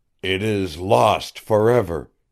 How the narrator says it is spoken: he said, with an ashen cheek and a quiver in his stern voice

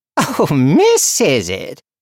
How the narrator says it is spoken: cackled the woman

